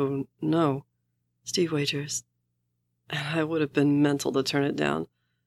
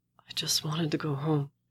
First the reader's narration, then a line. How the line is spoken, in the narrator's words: Steve whispers, perversely